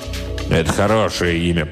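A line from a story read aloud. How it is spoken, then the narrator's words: Impatient grumble. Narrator (Russian): проворчал барон, выдавая нетерпение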